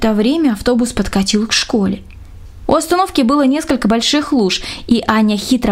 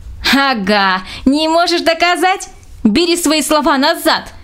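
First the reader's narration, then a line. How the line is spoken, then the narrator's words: Shout in strange voice. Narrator (Russian): закричала Аня не своим голосом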